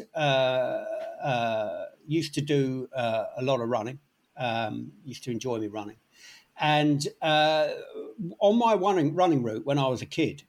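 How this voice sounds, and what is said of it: London accent. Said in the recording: “I grew up in London, as you can probably gather from the accent.”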